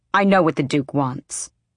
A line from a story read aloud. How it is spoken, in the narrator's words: Manon snapped